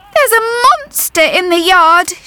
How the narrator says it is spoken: she whimpered

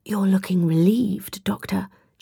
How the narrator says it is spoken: Charlie whispered out of the side of her mouth

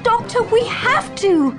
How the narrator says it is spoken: I cried

